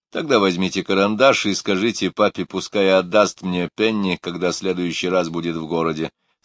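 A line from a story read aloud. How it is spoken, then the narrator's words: Plain. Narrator (Russian): сказал мистер Олсен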